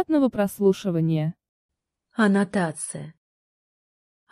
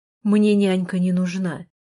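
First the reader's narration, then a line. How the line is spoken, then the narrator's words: Rough, rude. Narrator (Russian): грубо сказал он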